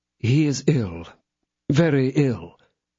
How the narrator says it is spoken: answered Aramis in a melancholy tone

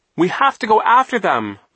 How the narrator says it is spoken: screamed, her face streaked with tears

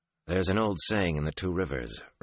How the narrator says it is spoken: Rand said dryly

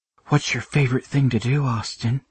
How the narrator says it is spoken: Briggs whispered

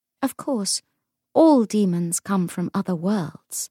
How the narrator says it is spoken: said Hypatia

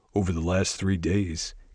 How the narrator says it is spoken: Garrett muttered

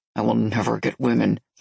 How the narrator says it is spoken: he muttered

